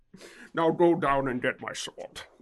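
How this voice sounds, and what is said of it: Put-on Scottish accent, fairly decent. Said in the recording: “I'm trying to attempt my Scottish accent ... That one wasn't bad.”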